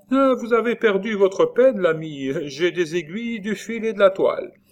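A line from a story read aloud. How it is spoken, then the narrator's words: Exclaimed. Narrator (French): elle s'écria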